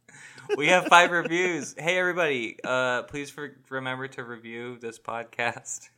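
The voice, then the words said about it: Defeated, dejected tone. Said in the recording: “Why do you sound so defeated?”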